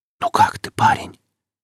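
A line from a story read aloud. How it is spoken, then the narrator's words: Insinuating whisper. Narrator (Russian): раздался чей-то вкрадчивый шепот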